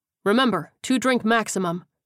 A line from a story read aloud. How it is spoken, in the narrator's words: the sergeant said firmly